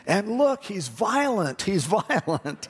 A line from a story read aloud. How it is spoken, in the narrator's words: he started yelling